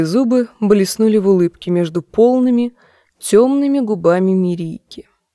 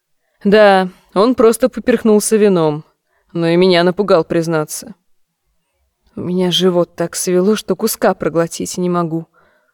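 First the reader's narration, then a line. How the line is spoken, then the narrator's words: Grumbling reply. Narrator (Russian): проворчала в ответ она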